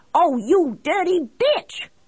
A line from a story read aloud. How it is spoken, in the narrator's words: I screamed at her